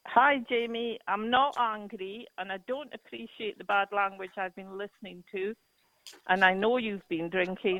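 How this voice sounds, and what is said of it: Scottish accent. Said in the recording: “Ma'am, your accent is absolutely adorable ... I think the Scottish accent is one of the most loveliest ... I just love the Scottish accent.”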